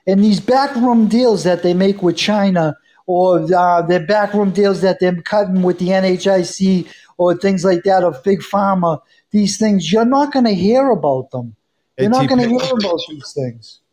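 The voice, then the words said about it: Boston accent. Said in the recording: “You from Boston? ... the accent gave it away ... I can pick out a Boston ear pretty easily”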